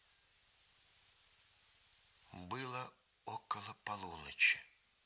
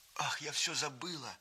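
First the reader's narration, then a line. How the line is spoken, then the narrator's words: Exclaiming. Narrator (Russian): воскликнула она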